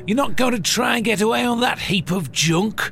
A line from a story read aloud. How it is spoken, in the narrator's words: shouted